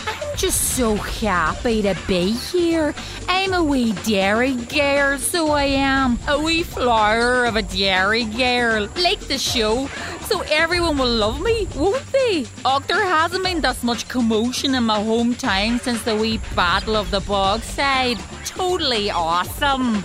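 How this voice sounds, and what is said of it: Irritating, hard-to-understand put-on accent. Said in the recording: “Imagine having an accent that irritating and hard to understand.”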